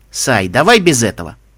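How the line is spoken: Wry grunt. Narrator (Russian): хмыкнул кубинец

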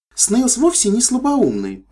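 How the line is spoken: Exclaiming. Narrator (Russian): воскликнула Свити

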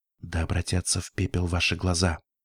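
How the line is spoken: Whispered. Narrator (Russian): прошептала я

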